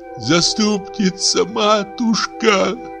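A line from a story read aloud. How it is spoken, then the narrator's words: Sobbing. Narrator (Russian): рыдала Марья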